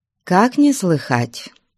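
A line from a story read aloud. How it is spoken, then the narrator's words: Calm. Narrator (Russian): спокойно сказала Манефа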